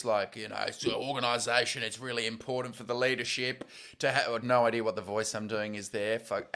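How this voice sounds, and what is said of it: Put-on American accent. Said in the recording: “That's ... American accent.”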